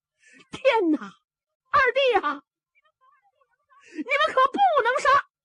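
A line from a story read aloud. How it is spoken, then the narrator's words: Loud shouting. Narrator (Chinese): 小白龙方天画高声喊嚷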